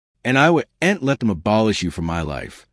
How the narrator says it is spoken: she replied

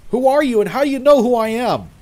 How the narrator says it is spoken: he yelled back at me

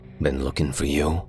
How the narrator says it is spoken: said after a moment, his voice all edges and canyons

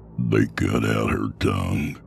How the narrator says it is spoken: Sutter said, his voice thick

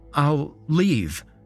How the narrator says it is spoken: Silas pleaded

